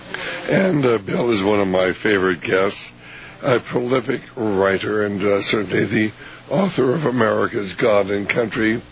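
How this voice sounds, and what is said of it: Mildly hoarse, laryngitis-affected voice. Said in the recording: “my voice is a little bit better today, but I still have a mild degree of laryngitis”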